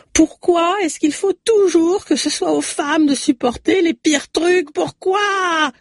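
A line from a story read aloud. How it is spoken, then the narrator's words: Roaring through labor pain. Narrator (French): rugit-elle dans une nouvelle contraction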